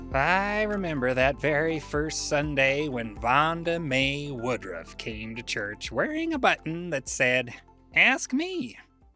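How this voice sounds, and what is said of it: Put-on old lady voice. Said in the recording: “I'll be reading this in old lady voice.”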